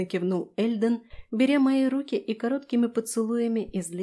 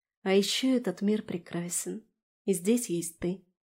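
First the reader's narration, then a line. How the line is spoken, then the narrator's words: Quiet. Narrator (Russian): добавила я тихо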